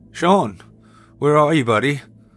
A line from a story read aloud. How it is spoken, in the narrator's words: I called out, now aware of the anxiety bubbling within me